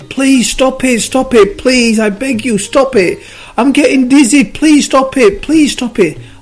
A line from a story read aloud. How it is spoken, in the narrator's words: the clay started screaming again